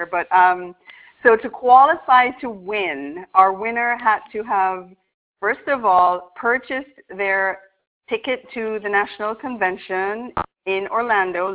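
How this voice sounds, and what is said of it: Jamaican Irish accent. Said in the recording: “never heard a Jamaican Irish accent until I met ... my jam Irish accent”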